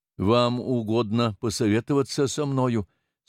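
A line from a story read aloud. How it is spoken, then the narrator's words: Stammering question. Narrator (Russian): спросил он, запинаясь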